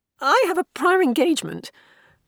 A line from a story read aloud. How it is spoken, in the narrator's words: Bernice said in more of a strangled squeak than she intended